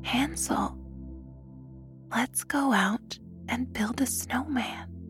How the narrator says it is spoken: she whispered

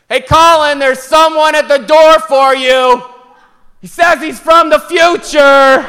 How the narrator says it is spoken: yelled up the stairs

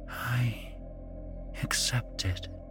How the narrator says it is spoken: she whispered

